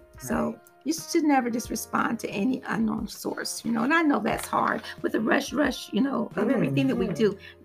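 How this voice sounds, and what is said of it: Raspy voice. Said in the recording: “My voice is so raspy,”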